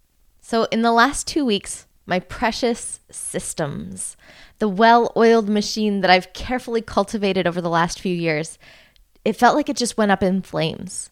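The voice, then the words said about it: Slightly congested, stuffy voice. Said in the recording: “You might even be able to hear it in my voice that I'm still a tiny bit stuffed up.”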